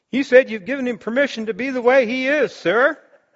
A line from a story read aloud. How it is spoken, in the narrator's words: Asha yelled back